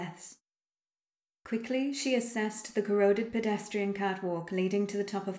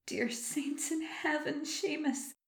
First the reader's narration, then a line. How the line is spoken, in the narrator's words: she whispered